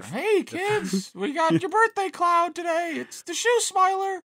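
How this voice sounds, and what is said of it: Clown character voice. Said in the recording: “I sound like a clown character”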